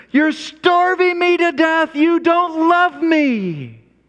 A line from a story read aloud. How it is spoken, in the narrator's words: children will scream